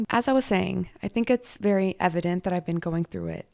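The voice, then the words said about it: Hoarse, strained voice with vocal fry. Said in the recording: “I'm sorry about my throat, my voice, my vocal fry. It's also driving me insane. ... I think I lost my voice at the game this weekend. ... I yelled my little heart out.”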